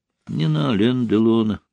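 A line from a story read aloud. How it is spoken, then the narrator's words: Whisper again. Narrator (Russian): вновь прошептала Ольга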